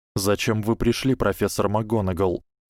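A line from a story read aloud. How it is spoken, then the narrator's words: Plain. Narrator (Russian): спросил Гарри Поттер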